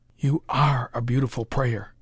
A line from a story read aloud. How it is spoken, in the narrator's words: whispered Parker